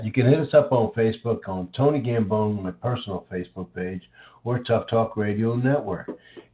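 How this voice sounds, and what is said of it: Voice affected by a cold. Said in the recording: “apologize for my voice today. I have a little bit of a cold”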